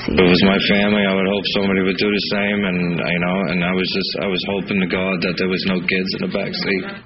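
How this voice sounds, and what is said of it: Slight accent, choked up. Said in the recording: “getting a little choked up at the end there ... The slight... accent”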